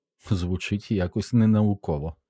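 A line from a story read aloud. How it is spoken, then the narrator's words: Laughing. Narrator (Ukrainian): засміялася Кеті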